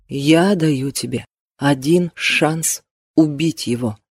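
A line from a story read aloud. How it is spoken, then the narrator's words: Quiet. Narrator (Russian): продолжил Кристофер так же тихо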